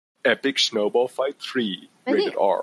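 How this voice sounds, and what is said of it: Dramatic movie trailer announcer voice. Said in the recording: “trailer voice ... your movie voice”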